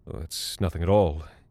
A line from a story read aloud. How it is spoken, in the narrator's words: muttered